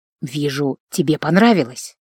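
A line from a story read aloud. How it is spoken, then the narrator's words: Whisper. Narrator (Russian): шепнул инквизитор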